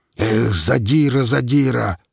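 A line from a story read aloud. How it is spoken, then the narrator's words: Growled. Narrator (Russian): прорычал Квас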